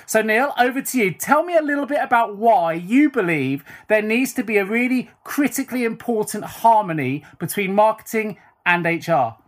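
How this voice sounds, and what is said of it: British accent. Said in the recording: “nice to hear a familiar accent too... it's nice to talk to another Brit”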